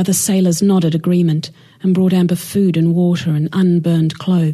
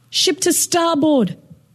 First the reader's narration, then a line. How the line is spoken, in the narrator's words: yelled